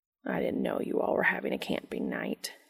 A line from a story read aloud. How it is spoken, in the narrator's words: he murmurs into Dean's ear